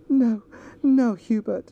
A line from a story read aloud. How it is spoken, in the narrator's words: she sobbed